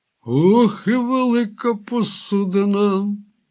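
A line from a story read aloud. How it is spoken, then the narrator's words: Ruffian sighing. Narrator (Ukrainian): зітхнув один з розбишак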